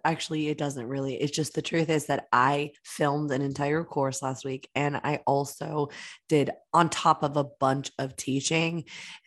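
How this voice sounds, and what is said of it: Strained, worn-out voice. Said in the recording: “as you can hear, my voice is a little bit under the weather ... my voice is just started to go”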